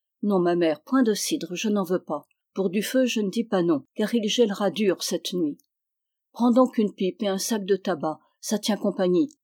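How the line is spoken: Plain. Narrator (French): dit Fanch

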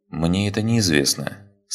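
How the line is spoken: Calm reply. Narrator (Russian): спокойно ответил майор

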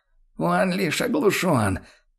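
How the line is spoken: Groaning wizard. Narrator (Russian): простонал чародей

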